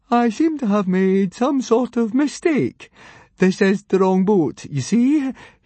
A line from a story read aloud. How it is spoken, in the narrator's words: He tried to laugh in an eerie fashion